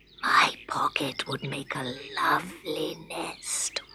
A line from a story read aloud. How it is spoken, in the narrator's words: whispered Scarecrow